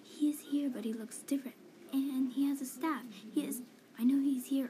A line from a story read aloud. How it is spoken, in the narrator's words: comes running in my room and starts yelling